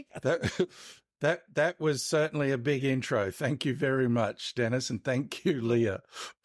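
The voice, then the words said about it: Strong foreign English accent. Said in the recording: “might have to put subtitles underneath my accent so that, yeah, you can understand”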